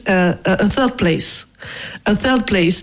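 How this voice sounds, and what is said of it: Put-on English accent. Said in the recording (French): “with the accent”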